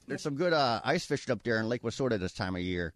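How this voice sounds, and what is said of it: Put-on Wisconsin accent, older female voice. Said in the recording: “the Wisconsin accent ... That's pretty good. ... You sounded 40 years older, but that was good. ... And female. ... 67-year-old female. That was good.”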